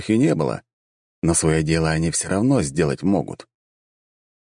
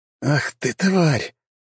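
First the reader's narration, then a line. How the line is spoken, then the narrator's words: Hissed. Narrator (Russian): прошипел я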